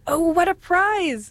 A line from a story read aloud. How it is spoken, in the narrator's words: she exclaimed